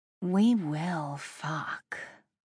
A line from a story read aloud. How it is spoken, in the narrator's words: I murmured